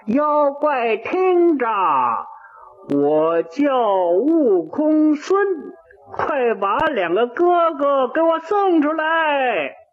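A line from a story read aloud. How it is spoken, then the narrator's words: Loud shout. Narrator (Chinese): 他又大声地喊起来了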